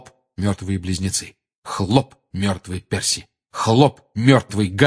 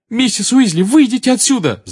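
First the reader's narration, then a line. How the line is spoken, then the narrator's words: Shout. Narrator (Russian): закричал Гарри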